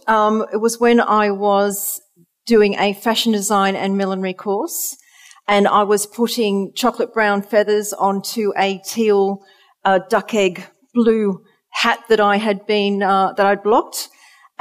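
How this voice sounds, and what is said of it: Australian accent. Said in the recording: “you can hear from my accent, I'm originally from Australia”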